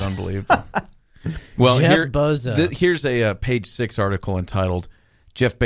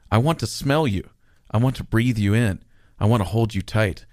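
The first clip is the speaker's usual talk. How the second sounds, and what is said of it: Sultry, seductive reading voice. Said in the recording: “in my most sultry voice”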